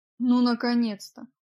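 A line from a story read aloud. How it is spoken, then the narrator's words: Grumbling. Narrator (Russian): проворчал Джек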